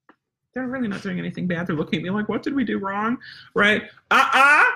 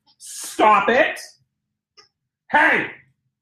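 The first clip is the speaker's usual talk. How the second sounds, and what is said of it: Stern scolding mom voice. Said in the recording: “my mom comes out ... My mom voice or my demon voice will come out.”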